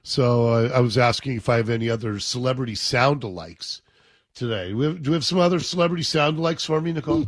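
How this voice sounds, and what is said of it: Raspy, hoarse voice. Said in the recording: “me with my poor little raspy voice here ... I sounded like Nick Nolte today”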